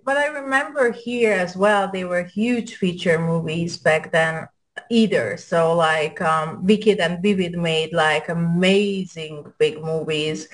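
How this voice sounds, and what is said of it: European accent. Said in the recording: “my accent because i'm european”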